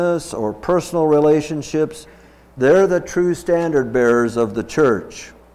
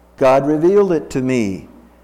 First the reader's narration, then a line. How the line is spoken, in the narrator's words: Nancy replied